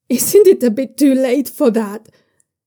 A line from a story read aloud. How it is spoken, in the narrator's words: He yells the question into Yitzhun's face